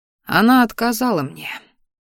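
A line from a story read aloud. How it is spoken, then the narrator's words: Quiet. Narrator (Russian): тихо произнес Салдер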